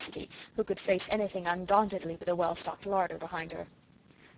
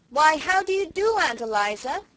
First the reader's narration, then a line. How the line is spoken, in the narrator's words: she said loudly